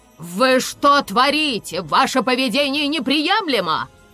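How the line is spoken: Female professor barking. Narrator (Russian): рявкнула одна из профессоров

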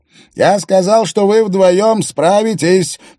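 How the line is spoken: Shouted. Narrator (Russian): прокричал Рингдалл

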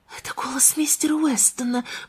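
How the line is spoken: Whisper. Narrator (Russian): прошептала Анна

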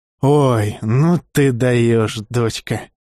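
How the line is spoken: Hoarse, choking with laughter. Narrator (Russian): Да весь смехом и утирая слезы, прохрипел Сергей Борисович

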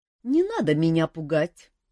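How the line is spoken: Said through tears of laughter. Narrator (Russian): утирая выступившие от хохота слезы, сказала Джоанна

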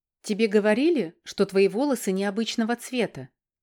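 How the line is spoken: Soft. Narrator (Russian): мягко произносит Мэри

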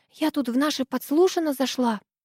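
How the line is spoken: Whisper. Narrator (Russian): зашептала Ирка

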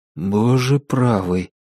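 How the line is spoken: Breathed out. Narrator (Russian): выдохнул Билл

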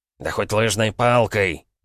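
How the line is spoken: Barking. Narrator (Russian): рявкнул Радислав

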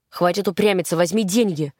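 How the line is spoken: Irritated. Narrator (Russian): раздраженно сказал Култи

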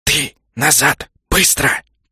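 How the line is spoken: Reptilian hiss. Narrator (Russian): прошипел ящер

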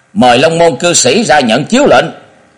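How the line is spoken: Raised voice. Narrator (Vietnamese): Hai hán tử cất cao giọng nói

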